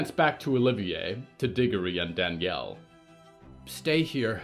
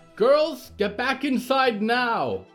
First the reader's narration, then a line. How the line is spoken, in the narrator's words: Valerie shouted